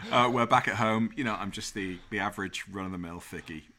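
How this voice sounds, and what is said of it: Non-American accent. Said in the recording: “My accent takes me a long way in this country ... the use of words that Americans will never use”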